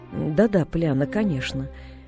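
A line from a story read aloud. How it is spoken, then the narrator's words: Listless mumble. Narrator (Russian): вяло пробормотала тетя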